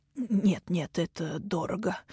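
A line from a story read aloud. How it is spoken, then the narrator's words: In an undertone. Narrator (Russian): говорил он вполголоса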